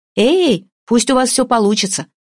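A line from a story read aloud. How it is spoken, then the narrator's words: Shouting after someone. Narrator (Russian): крикнула она ему вслед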